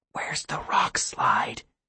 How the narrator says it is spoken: Tessa whispered

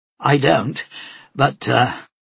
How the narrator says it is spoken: he laughed to himself

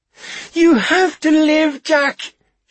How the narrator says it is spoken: she cried

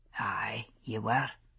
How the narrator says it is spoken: he said softly

